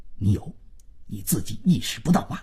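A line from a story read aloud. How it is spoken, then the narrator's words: Hushed, lowered voice. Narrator (Chinese): 万征……压低了嗓子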